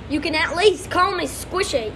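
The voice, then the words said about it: Put-on Australian accent. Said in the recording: “An Australian accent too... Australian accent,”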